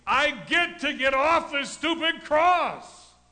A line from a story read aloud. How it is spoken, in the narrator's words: It is not a shout because Jesus is saying